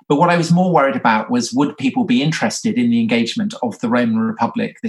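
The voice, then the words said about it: English accent. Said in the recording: “because I'm tell from my accent, I'm English.”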